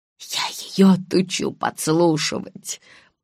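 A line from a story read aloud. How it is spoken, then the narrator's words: Mutter. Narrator (Russian): пробормотала мама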